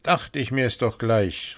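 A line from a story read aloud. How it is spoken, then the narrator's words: Exclaimed. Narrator (German): rief aus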